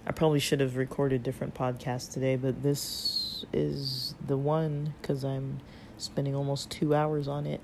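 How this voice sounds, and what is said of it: Strained, fading voice. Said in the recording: “I'm losing my voice too ... It's like I'm always losing my voice now.”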